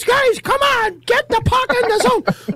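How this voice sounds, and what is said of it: Imitates another person's voice. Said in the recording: “If I'm to do my best Hitchcock and my best Tortorella impersonation... The one that talks like this”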